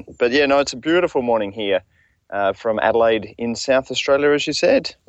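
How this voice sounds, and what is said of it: Australian accent with twang. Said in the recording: “put on a proper Australian accent since I'm in Australia ... it depends on the level of twang that I put into it”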